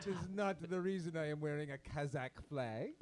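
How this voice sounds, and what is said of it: Put-on Kazakh accent. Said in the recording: “That is for that sure a Kazakhstan accent.”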